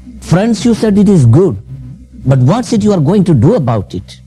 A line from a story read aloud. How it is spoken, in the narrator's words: William Carey shouted and said, with agony